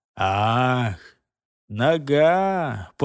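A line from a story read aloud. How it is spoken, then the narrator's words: Weary drawl. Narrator (Russian): постыло протянул Гортер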